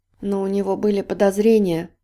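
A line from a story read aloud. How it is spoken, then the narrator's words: Mumbled. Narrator (Russian): пробормотала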